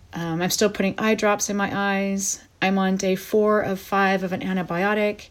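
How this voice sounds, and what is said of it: Slightly raspy, not fully recovered voice. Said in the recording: “my voice is still not 100%. I still have a little bit of a raspy thing going on”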